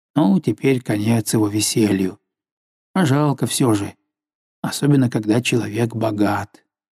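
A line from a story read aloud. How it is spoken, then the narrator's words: Philosophical tone. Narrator (Russian): Другой добавил философским тоном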